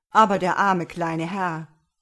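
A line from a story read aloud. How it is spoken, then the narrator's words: Farmer calling out. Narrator (German): rief jetzt der Bauer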